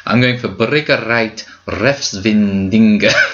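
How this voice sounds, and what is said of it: Put-on Aberdeen Scottish accent. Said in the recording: “Why are you speaking with an Aberdeen accent?”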